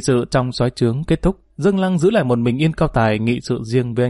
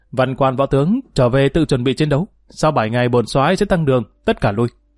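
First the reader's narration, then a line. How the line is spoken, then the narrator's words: Loud commanding shout. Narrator (Vietnamese): cao giọng quát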